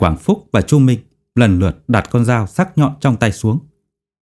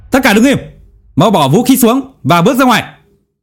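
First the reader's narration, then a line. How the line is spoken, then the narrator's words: Loud shout. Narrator (Vietnamese): Hàn Hạo hét lớn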